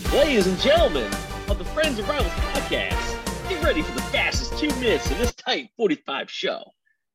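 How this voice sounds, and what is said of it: Game show host voice. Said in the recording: “impersonating a game show host.”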